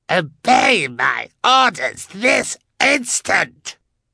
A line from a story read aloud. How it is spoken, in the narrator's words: he screamed